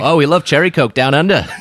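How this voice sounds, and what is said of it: Put-on Australian accent. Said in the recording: “doing an Australian accent”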